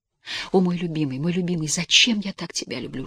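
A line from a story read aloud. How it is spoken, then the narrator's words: Whisper. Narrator (Russian): шептала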